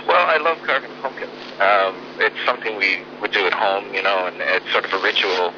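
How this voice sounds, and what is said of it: American accent. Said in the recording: “I can hear from your accent... I'm originally from the San Francisco Bay Area... I knew I could hear the accent”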